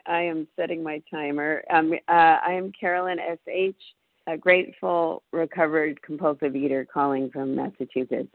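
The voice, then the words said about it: Groggy, slow, slightly sick voice. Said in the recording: “I'm a little sick, so sorry if I sound groggy or a little slow this morning.”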